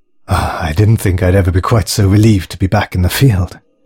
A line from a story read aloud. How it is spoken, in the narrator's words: breathed Alex